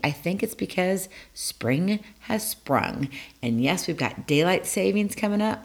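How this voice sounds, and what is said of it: Lower, raspy voice. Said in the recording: “I really don't have much of a voice... my voice is a little lower today... Not quite that low, but it is lower. And it feels a little raspy.”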